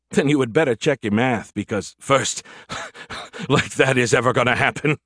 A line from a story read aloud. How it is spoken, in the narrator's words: he chuckled